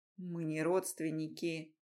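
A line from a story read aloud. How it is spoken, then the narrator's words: Through clenched teeth. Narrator (Russian): проговорил сквозь зубы Рома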